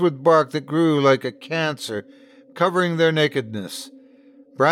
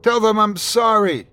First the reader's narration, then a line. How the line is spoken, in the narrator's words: a voice cried out